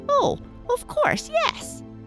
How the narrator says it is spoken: squeaked the new sawdust doll

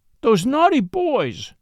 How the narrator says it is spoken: sobbed

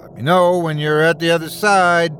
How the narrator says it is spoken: called Callum, his voice booming through the passageway

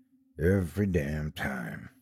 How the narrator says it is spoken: the mayor, who was now mumbling

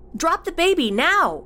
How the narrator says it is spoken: Cassie yelled out again

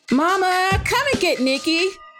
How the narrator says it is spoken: yelled

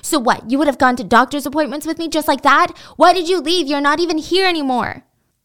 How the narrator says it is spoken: she screamed back at him

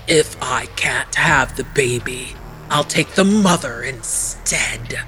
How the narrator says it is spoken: Arpe hissed

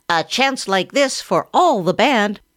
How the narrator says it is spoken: cried one

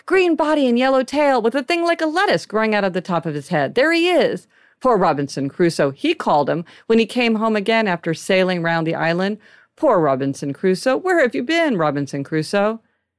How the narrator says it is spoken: cried Scrooge

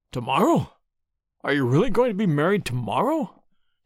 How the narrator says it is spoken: he exclaimed, his sallow face twitching nervously

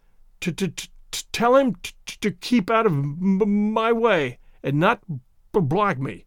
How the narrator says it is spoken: stuttered Tay-Tay Mulder

